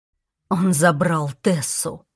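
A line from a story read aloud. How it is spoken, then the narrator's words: Growled. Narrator (Russian): прорычал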